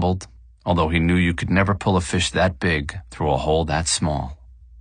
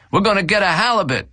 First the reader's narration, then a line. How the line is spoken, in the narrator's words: Dominguez yelled